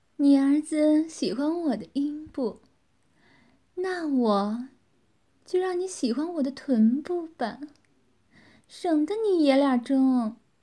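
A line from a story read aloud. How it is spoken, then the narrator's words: Smiling. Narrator (Chinese): 微笑着说道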